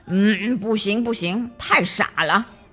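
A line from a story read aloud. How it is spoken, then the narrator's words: Mumbling. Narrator (Chinese): 格诺夫嘟囔着说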